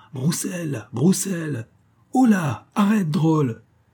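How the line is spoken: Shouted. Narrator (French): cria D'Artagnan

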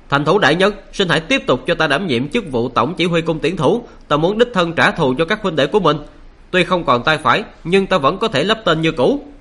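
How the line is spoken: Loud. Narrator (Vietnamese): lớn tiếng nói

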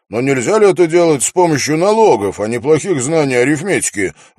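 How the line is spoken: Indignant question. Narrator (Russian): возмущенно спросил

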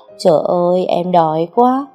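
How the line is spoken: Moaning. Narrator (Vietnamese): rên rỉ

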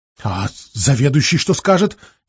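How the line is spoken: Frightened question. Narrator (Russian): испуганно спросила та

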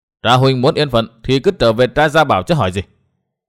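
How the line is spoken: Cold reply. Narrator (Vietnamese): Hắn đáp lạnh lùng

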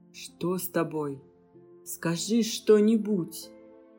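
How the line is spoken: Trembling voice from afar. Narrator (Russian): Дрожащим голосом откуда-то издалека спрашивал Адрион

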